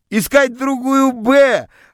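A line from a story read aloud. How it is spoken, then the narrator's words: Joyful shouts from classroom. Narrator (Russian): радостно кричали мне из класса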